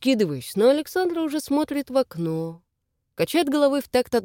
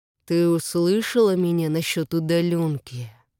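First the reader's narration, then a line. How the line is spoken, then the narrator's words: Through gritted teeth. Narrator (Russian): Давлю сквозь зубы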